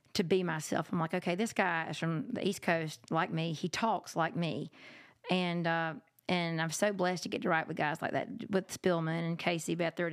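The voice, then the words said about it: Country accent. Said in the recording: “You have a country accent.”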